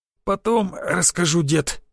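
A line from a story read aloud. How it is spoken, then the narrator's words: Hoarse wheeze. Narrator (Russian): просипел я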